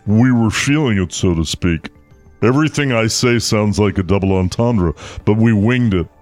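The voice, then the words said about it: Impression of Adam Driver. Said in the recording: “Here's the quote from Driver ... It's my new impression ... It's not bad ... It's good.”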